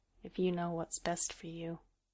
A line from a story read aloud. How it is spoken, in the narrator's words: she muttered to the earth